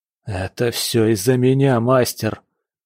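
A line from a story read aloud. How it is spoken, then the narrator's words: Hoarse speech. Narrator (Russian): хрипло выговорил Саик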